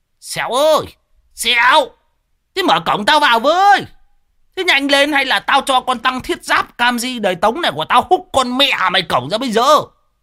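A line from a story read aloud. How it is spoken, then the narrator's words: Bellowing. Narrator (Vietnamese): Lão Đồng chõ mõm vào mà gào lên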